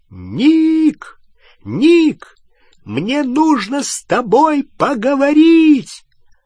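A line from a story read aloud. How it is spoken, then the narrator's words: Shouting at full strength over noise. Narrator (Russian): Гарри крикнул во всю мощь, перекрывая шум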